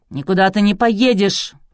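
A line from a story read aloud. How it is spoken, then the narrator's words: Barking. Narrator (Russian): рявкнул Клычко Жиляев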